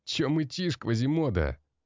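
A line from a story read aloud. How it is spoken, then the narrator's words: Mocking laughter. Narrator (Russian): смеялся дорого одетый молодой блондин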